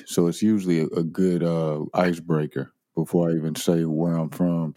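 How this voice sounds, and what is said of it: St. Louis accent. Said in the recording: “my accent tells on me, you know, and so people sometimes they think I'm from Atlanta or something like that, but St. Louis is in the way I speak”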